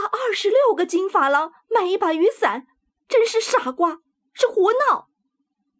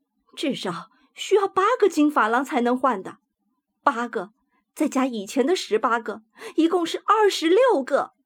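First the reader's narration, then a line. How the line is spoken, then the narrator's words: Indignant muttering. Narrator (Chinese): 沃雷伊太太愤愤不平的喃喃说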